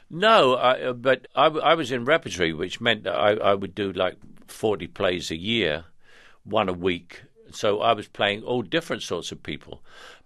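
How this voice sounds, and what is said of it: Cockney working-class London accent. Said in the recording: “I am what's called a Cockney, which is very, very working class London”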